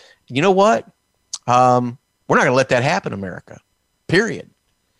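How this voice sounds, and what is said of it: Usual voice. Nothing is said of it.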